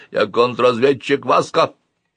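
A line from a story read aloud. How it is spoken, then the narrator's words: Kitten, muffled voice. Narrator (Russian): Котенок глухим голосом сказал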